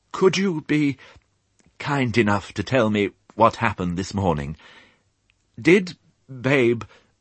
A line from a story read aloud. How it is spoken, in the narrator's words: she said once more in a voice choked with the effort of being humble